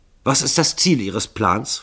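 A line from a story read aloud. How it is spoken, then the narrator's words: Hasty question. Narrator (German): fragte Starkington hastig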